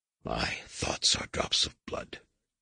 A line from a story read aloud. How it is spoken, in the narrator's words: whispered